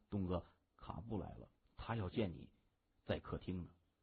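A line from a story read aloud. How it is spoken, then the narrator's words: Awkward low voice. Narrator (Chinese): 金眼儿有些尴尬地低声说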